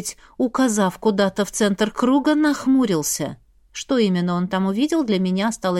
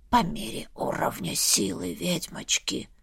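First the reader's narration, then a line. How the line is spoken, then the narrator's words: Skull's whisper. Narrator (Russian): шепнул мне черепушка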